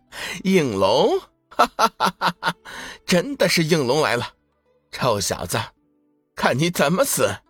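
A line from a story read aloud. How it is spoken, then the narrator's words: Laughing. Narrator (Chinese): 玄心笑道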